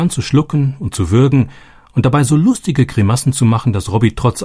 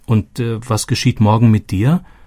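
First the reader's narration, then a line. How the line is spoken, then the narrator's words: Plain. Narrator (German): fragte Robbie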